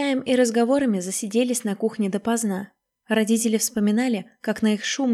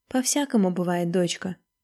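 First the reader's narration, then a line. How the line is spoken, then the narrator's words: Mother speaking softly. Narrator (Russian): мягко сказала мама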